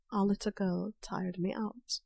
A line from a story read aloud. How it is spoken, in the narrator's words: Draco chuckled softly